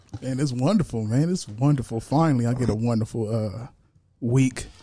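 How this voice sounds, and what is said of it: Smooth radio announcer voice. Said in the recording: “radio voice is on and cracking today”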